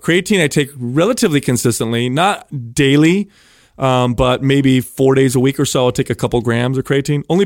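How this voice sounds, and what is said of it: Congested voice with a cold. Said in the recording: “I have a cold, ... there's a little bit of congestion in my lungs”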